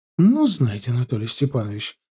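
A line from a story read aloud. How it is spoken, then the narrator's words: Indignant. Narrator (Russian): возмущенно зыркнула она на него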